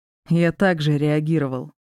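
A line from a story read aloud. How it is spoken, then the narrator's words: Snort. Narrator (Russian): хмыкнул Диар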